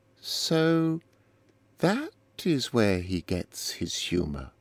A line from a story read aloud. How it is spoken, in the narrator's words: said Eleanor slowly